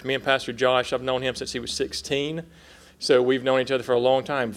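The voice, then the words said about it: South Carolina Southern accent. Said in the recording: “We moved here from South Carolina. If you hear my accent, that's what that is.”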